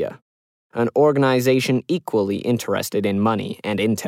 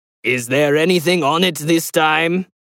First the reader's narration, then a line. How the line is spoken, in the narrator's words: He growled suspiciously